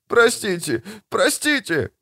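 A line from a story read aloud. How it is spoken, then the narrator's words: Sobbing apology. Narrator (Russian): всхлипнул араб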